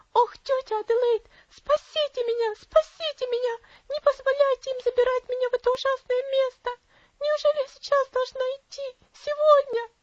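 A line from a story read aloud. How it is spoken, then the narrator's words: Girl shrieking in terror. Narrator (Russian): Девочка завизжала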